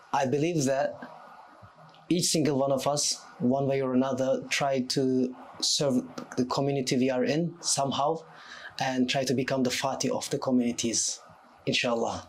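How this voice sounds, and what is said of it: Turkish accent. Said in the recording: “as people can hear by your accent, mashallah, you're from Istanbul”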